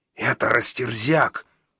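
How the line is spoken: Nervous exhale. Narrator (Russian): нервно выдохнул вонзяк

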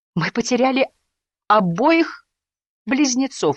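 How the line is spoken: Sobbing. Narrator (Russian): рыдал

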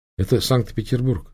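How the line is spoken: Plain. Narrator (Russian): сказала она

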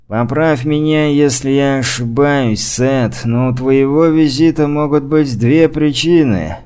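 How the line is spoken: Grumbling. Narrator (Russian): пробурчал Мейс

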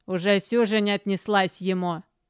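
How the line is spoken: Servant's grumble. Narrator (Russian): буркнула служанка

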